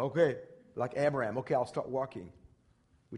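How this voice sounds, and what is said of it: Usual voice. Nothing is said of it.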